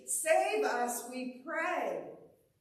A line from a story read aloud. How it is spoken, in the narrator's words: people are shouting acclamation and pleading